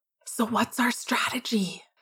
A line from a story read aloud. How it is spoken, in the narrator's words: Sirius whispered